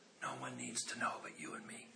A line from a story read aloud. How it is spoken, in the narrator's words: she whispered soft and said